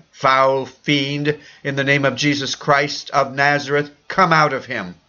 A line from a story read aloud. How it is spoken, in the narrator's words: Elder Chang cried